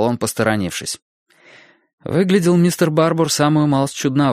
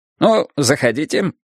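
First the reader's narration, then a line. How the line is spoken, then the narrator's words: Cheerful. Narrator (Russian): бодро сказал он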